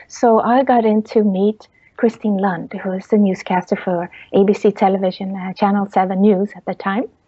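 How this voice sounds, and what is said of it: Swedish accent. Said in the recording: “he heard on my accent, oh, you're from Sweden.”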